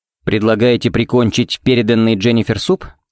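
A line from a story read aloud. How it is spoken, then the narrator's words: Plain question. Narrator (Russian): спросил Феникс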